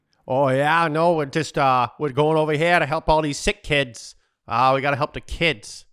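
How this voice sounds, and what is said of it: Put-on South Boston Irish accent. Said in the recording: “committed to the bit with a South Boston Irish accent ... That's South Boston.”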